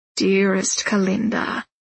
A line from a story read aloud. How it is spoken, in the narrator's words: he purrs